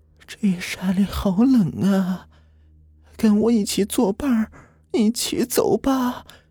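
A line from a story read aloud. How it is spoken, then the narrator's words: Hoarse rasping old woman. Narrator (Chinese): 老妇人 却发出嘶哑的声音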